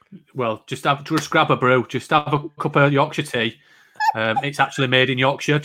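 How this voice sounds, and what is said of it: British accent. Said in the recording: “That's my favourite thing with your accent you could possibly say... in the UK, I love it when you say cup of tea.”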